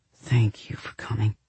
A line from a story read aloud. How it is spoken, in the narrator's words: Parker whispered